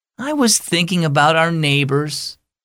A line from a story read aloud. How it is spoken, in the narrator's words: Tori sighed